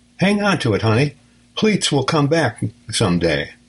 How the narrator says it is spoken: she added cheerfully

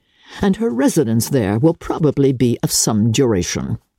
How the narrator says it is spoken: said her father dryly

